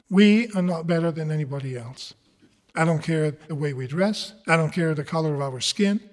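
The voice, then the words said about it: Italian accent. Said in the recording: “someone who comes from Italy who speaks with an accent”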